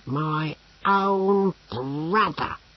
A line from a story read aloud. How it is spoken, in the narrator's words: growled Brocando